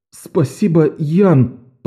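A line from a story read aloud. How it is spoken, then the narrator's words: Nearly sobbing. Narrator (Russian): почти прорыдал Беннон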